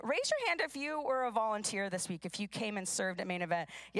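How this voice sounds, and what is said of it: Hoarse voice. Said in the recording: “I know all of your voices are probably hoarse like mine”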